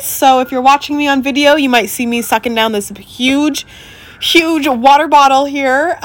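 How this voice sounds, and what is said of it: Rough, unwell-sounding voice. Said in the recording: “My voice is a little horrendous today. I woke up with some crazy cold.”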